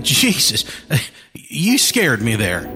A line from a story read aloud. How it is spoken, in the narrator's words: Jefferson said with a nervous laugh